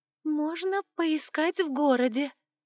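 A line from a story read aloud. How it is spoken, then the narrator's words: Hesitant suggestion. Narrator (Russian): неуверенно предложил кто-то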